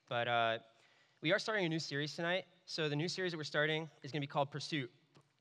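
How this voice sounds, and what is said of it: Hoarse, fading voice. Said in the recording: “I've had some sniffles, so my voice is kind of going”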